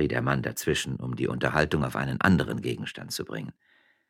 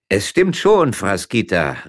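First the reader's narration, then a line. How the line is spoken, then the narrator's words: Calling down from above. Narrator (German): rief Gevatter Lukas von dem Spalier herab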